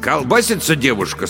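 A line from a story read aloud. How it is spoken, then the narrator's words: Stern male voice. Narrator (Russian): строго сказал профессор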